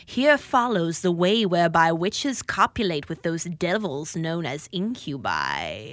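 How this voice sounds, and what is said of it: Creepy spooky voice. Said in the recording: “that's a good creepy voice for Halloween”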